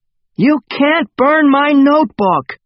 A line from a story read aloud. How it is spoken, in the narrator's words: shouted